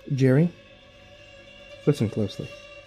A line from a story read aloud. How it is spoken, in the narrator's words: I said in a low voice